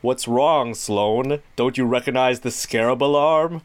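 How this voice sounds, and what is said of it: Imitation of the Blue Scarab villain. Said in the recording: “that's an excellent voice of him”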